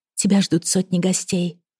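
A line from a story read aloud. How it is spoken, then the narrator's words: Desperate whisper. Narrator (Russian): прошептала отчаянно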